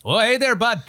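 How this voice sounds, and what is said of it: Put-on Maritime Canadian accent. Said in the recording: “a maritime accent ... I just sound like somebody from Fargo”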